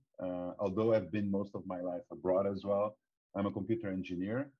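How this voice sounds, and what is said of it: Brazilian Portuguese accent in English. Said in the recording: “As you can notice from my accent, I'm Brazilian.”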